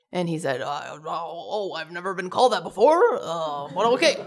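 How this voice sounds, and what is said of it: Impression of Bernie Sanders. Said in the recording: “That's my impression.”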